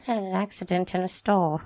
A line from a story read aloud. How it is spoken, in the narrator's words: David replied in a mumbled voice